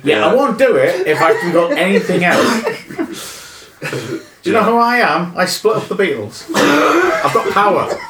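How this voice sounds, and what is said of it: Exaggerated northeastern English accent impression. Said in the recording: “a more northeastern accent than your natural accent for your impression of Yoko Ono”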